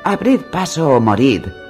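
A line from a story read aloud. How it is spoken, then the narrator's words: Exclaimed. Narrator (Spanish): exclamó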